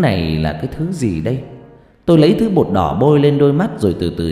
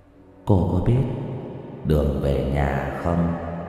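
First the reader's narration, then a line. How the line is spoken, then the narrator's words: Ghostly soft question. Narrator (Vietnamese): Bóng ma hỏi khẽ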